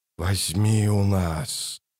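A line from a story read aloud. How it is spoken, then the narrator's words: Rustling whispered chorus. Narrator (Russian): шелестящим хором прошептали тысячи голосов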